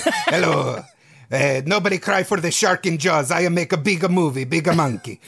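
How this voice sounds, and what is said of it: Italian-accented imitation of another person. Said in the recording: “you have to make him sound like a magical Italian frog ... a perfect impersonation”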